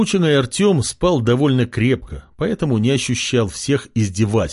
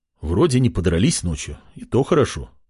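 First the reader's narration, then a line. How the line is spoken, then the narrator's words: Muttering. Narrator (Russian): пробормотал парень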